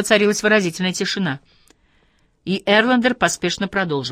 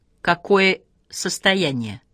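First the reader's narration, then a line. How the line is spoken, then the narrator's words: Stern question. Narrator (Russian): строго спросила Спонгберг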